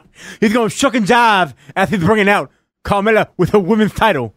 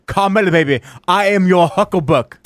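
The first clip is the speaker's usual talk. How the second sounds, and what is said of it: Dusty Rhodes impression. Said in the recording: “such a good Dusty impression ... a dead-on Dusty”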